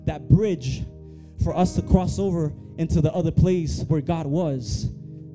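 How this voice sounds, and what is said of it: Speaker's own foreign accent. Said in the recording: “My accent, I'm so sorry.”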